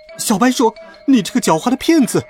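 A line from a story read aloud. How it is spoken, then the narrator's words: Angry shout. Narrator (Chinese): 邋遢大王……生气地喊道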